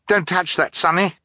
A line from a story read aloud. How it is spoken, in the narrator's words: Violet cried